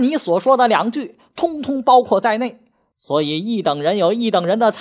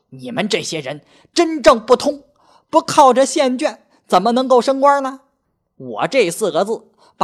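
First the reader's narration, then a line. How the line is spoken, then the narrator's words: Angrier outburst. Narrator (Chinese): 欧凤人更发怒道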